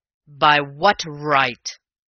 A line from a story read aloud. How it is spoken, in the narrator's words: roared Raffles in a ringing voice, and I never saw his face in such a blaze